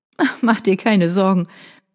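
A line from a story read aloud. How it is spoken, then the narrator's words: Light laugh. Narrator (German): Vanessa lachte ein wenig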